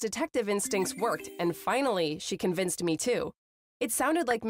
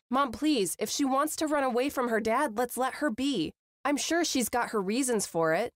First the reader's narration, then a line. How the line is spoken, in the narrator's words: I said